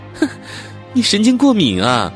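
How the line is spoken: Amused, smiling. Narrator (Chinese): 护士笑了笑说

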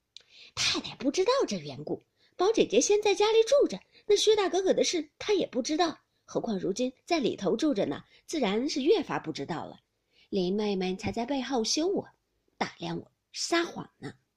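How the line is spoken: Laughing. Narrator (Chinese): 宝玉笑道

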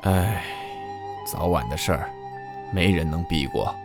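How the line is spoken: Sighing. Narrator (Chinese): 叹了口气，说

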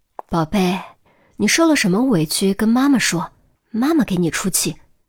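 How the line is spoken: Gentle, through a door. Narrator (Chinese): 他隔着门柔声道

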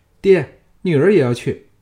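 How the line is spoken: Calling out. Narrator (Chinese): 乌廷芳叫道

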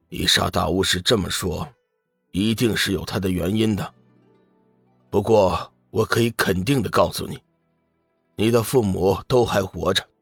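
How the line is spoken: Sighing. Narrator (Chinese): 玄冥子叹息一声

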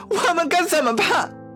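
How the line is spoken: Crying out. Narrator (Chinese): 一个女人哭喊着

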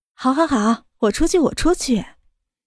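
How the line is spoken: Calm, smiling. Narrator (Chinese): 江晚竹也不生气，微微一笑，道

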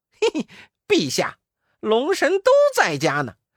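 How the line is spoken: Stern, sharp. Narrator (Chinese): 悟空厉声道

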